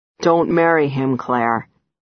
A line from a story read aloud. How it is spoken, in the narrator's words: says quite gravely